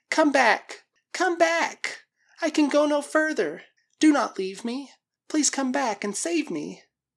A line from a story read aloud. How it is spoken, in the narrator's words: she cried